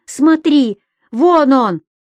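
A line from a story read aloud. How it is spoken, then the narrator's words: Shouted. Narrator (Russian): Анатолий крикнул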